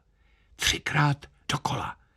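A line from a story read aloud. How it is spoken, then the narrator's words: Bandleader whispering. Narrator (Czech): Kapelník šeptl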